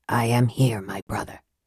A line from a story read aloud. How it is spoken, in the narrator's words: a voice whispered from the darkness